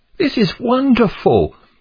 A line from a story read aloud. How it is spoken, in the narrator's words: exclaimed Pliable